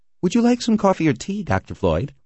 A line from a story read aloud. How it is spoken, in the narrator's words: asked cheerfully